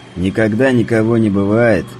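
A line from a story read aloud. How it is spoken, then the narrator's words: Laughing. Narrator (Russian): хохотнул Мишка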